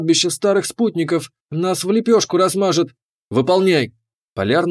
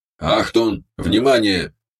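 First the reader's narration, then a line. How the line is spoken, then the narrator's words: Creaky mechanical, German accent. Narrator (Russian): проскрипел он своим механическим голосом с немецким акцентом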